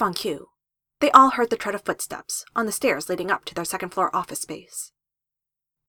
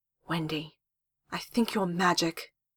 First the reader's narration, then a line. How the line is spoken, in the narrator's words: Jess breathed in anticipation